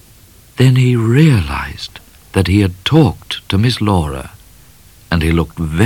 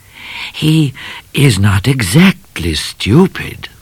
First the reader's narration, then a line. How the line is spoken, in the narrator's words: murmured Cat